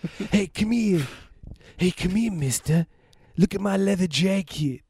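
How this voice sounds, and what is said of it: Imitates another person's voice. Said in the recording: “is my impersonation of John Lithgow”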